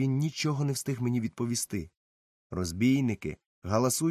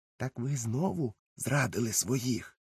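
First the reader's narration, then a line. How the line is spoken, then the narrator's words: Impulsive whisper. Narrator (Ukrainian): не втримався і прошепотів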